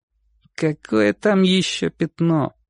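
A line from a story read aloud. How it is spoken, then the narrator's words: Boy's grumble. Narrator (Russian): пробурчал мальчик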